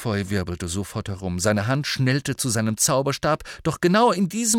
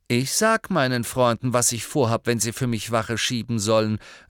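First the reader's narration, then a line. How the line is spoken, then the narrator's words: Just loud enough. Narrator (German): sagte gerade laut genug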